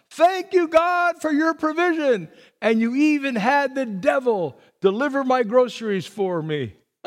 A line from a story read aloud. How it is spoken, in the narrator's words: she shouted at the top of her lungs